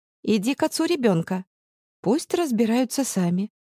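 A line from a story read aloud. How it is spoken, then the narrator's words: Calm. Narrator (Russian): Я ей спокойно сказала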